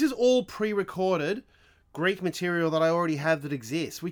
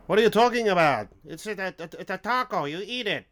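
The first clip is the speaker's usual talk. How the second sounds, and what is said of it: Poor put-on Greek accent. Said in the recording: “That was a terrible Greek accent”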